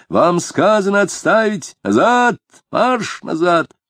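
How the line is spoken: Shouting police officer. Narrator (Russian): чернобородый офицер конной полиции закричал

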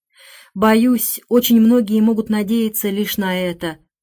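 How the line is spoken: Sighing. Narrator (Russian): вздохнула миссис Торнбери

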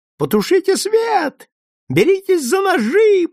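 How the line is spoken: Woman shrieking. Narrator (Russian): продолжает визжать женщина

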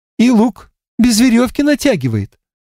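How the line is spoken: Sudden exclamation. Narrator (Russian): воскликнула вдруг Егенка

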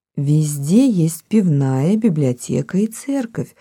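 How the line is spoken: Muttering. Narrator (Russian): бормотала она

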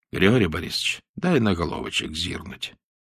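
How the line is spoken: Quiet. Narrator (Russian): Он сказал тихо

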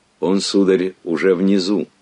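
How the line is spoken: Plain. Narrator (Russian): ответил сверхсрочник

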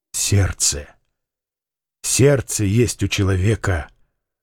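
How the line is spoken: Young man, quiet. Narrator (Russian): тихо сказал юноша

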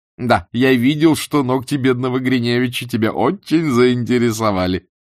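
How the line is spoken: Laughing. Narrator (Russian): смеясь сказал Степан Аркадьевич

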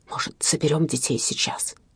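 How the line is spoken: Whisper into ear. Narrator (Russian): Приблизив губы к ее уху, он шепнул

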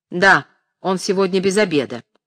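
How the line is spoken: Sharp reply. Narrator (Russian): резко отвечал ей брат

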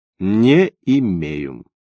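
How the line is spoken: Drawled. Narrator (Russian): Он протянул

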